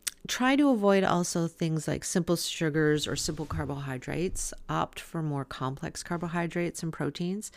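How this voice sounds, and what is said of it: Strained, fading hoarse voice. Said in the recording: “I seem to be losing my voice.”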